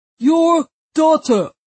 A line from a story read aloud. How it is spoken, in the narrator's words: repeated the guard, in a warning voice